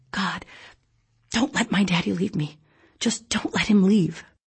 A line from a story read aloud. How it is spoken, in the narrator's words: when the darkness of night made my heart hammer in my chest, I would whisper over and over